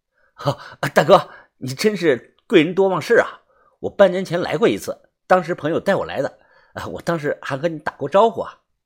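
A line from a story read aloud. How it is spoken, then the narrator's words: Hurried, laughing. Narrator (Chinese): 我忙笑着回答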